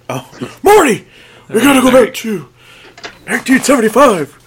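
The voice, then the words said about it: Doc Brown impression. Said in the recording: “no Doc Brown impersonation? ... I got a chance to do a little Doc Brown.”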